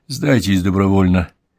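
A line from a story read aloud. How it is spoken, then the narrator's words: Soft offer. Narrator (Russian): мягко предложил Конан Дойл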